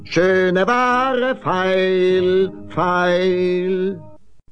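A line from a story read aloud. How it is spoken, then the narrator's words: Called out. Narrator (German): rief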